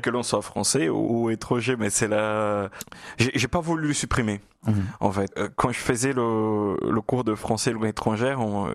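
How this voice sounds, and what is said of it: Lilting Brazilian Portuguese accent in French. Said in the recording (French): “cet accent chaloupé ... votre brésilien natal, votre portugais natal ... mon portugais du nord-est du Brésil”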